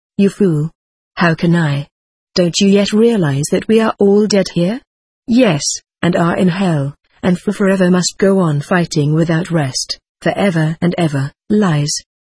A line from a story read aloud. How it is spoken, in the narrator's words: I answered